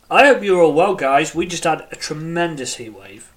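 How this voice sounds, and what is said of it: British accent. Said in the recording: “As you can tell by my accent, I am in the UK.”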